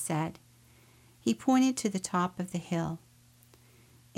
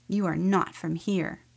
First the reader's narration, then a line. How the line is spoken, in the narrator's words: woman growled